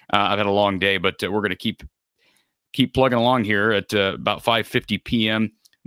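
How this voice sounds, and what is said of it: Tired, weakening voice. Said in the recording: “my voice is starting to get a little bit weak”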